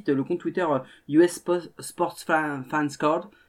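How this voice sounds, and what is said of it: French accent on English words. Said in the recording (French): “Excusez-moi pour mon accent.”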